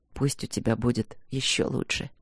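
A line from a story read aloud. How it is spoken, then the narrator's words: Quiet. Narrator (Russian): произнес он тихо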